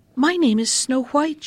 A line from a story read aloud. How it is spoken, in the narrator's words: she answered